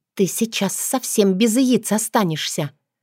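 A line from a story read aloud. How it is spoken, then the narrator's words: Hissed. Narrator (Russian): Прошипела я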